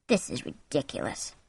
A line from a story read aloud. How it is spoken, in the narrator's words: he said softly and angrily